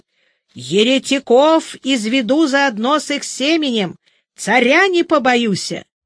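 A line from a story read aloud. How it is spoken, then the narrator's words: Priest shouting. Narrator (Russian): Поп крикнул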